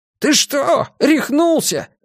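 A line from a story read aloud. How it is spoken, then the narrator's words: Yelling. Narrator (Russian): заорал его приятель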